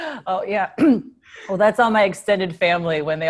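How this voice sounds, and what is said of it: Usual voice. Nothing is said of it.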